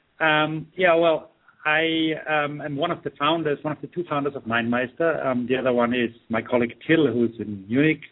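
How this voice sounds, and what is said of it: Austrian German accent. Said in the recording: “I'm Austrian ... the Arnie type of accent”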